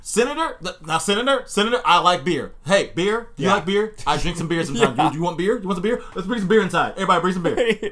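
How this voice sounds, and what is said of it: Loud yelling Kavanaugh impression. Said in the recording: “I saw him yelling and talking about beer a lot ... a loud man asking for beer”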